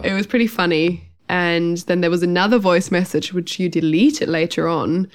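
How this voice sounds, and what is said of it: Slightly nasal, sick-sounding voice. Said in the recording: “I'm still a little bit sick now. I don't know if you can hear that. I'm a bit nasal.”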